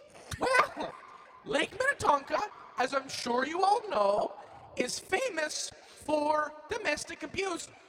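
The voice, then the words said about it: Poor put-on Irish or Minnesotan accent. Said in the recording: “Call it Irish. Call it Minnesotan. It's a surprisingly similar accent when you're not so good at them.”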